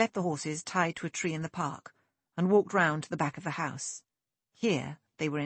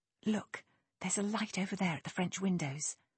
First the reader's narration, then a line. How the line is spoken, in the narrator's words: Lexi whispered